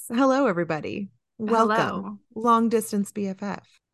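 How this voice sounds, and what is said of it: Put-on podcast host voice. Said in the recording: “get my podcast voice.”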